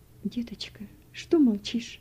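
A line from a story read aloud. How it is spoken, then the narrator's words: Tearful woman. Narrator (Russian): Сквозь слезы проговорила женщина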